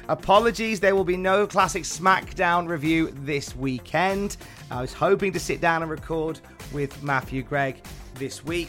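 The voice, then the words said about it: Weak, recovering voice. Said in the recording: “my voice is only barely coming back now. I've had some real issues with my voice over the past week”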